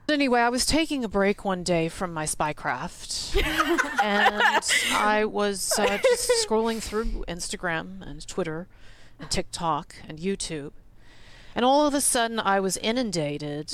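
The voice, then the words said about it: Impersonates a CIA operative. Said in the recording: “did a little impersonation of this CIA operative”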